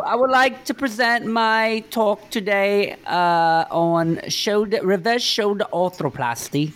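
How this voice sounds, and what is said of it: Put-on British accent. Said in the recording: “adopt a British accent every time you're having a serious conversation ... British accent. British accent.”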